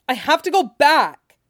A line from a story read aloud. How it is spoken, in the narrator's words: Bran shouted at him wildly